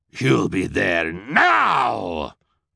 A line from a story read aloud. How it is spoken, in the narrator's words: Olaf growled